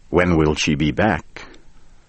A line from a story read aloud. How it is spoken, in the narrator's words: I asked